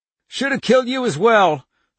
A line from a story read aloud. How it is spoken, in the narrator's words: the woman said, panting